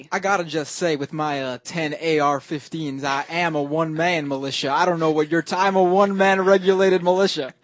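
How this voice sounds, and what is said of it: Bad fake Southern accent. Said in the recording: “To have a southern accent there. It was really bad. It was really bad.”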